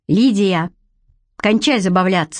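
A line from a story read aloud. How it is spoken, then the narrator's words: Stern. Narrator (Russian): сказал я строго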